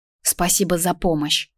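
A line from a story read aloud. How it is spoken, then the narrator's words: Quiet. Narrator (Russian): сказала тихо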